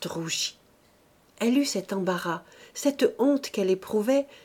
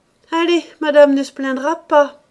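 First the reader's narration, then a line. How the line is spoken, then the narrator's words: Bold exclamation. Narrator (French): s'écria Rose avec sa hardiesse ordinaire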